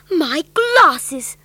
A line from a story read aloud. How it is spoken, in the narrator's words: cried Mr